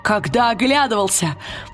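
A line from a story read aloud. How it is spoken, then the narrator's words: Exclaiming. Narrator (Russian): воскликнул он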